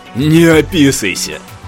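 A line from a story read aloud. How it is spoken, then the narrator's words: Loud laughter. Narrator (Russian): Громко рассмеялся Татум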